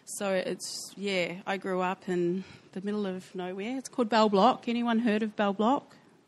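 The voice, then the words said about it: New Zealand accent. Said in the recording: “I'm obviously from New Zealand. You can tell by my accent.”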